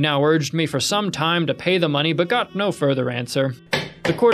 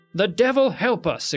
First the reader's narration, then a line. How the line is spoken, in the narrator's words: exclaimed another